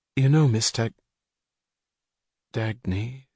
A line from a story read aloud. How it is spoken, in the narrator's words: she said softly, in wonder